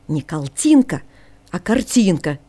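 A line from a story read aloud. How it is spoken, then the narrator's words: Angry, displeased correction. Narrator (Russian): сердито поправил его Ники, недовольный, что Жорж появился в игральной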